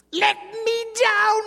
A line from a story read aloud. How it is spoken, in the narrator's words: he cried again